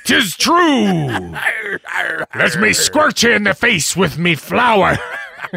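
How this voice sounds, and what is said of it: Put-on pirate accent. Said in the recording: “judging by the accent... Talk Like a Pirate Day”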